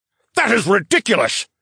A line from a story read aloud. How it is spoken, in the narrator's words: the Duke exclaimed